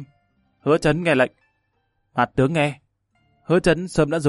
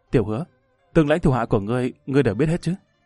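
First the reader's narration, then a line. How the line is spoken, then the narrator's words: Quiet question. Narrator (Vietnamese): Hắn nhỏ giọng hỏi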